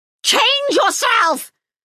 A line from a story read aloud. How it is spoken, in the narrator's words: Serret screamed at him